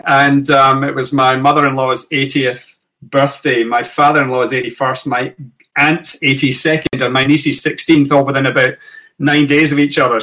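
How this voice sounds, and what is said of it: Scottish accent. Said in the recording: “We'd gone back to Scotland. You can tell by the accent, obviously”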